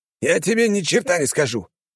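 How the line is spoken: Hoarse wheeze, injured man. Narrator (Russian): прохрипел мужчина

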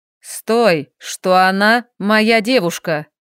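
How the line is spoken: Clipped, emphatic. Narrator (Russian): отчеканил Андрей

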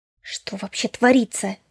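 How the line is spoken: Hissing. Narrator (Russian): зашипела

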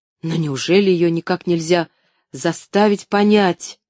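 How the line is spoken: Plain. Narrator (Russian): спросил Джон Пендлтон

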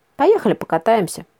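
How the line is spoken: Calm suggestion. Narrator (Russian): спокойно предложил он

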